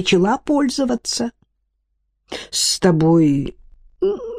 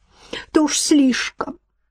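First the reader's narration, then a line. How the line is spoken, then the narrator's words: Sobbing. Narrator (Russian): всхлипывала Ирма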